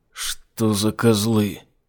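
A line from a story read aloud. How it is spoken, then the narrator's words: Strangled voice. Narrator (Russian): придушенным голосом спросил Айзек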